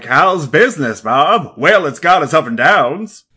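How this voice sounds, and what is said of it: Old-timey radio announcer voice. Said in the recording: “That old-timey voice ... when a movie is set in the 1950s and everyone talks like this ... more like 1910 silent movie voice ... it's like radio voice”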